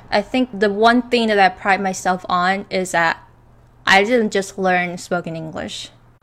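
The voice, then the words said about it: Near-American English accent. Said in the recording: “my accent, you know, some of you call it almost American, perfect American”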